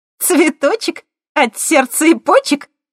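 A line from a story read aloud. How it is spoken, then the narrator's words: Giggled. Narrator (Russian): хихикнула Светка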